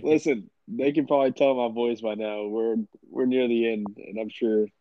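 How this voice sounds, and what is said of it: Stuffy congested voice. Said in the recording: “I was sick. I'm still sick ... I sound kind of stuffy”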